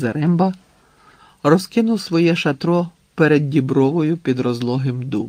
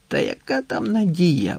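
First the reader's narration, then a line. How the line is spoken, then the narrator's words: Grumbled. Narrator (Ukrainian): буркнув Леміш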